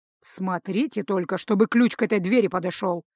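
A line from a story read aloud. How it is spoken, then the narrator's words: Grumbled. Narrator (Russian): пробурчал Рыжий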